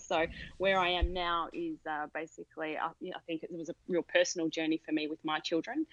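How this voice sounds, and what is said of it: Australian accent. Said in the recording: “from the accent, you'd pick that I'm from Australia”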